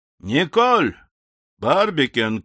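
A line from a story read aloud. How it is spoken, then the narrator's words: Loud shout. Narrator (Russian): крикнул он громко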